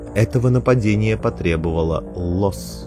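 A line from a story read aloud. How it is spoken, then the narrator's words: Plain. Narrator (Russian): сказала мать Беннер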